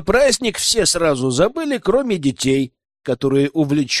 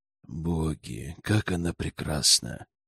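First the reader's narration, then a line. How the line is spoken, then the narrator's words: Tender whisper. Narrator (Russian): Умиленно прошептал герцог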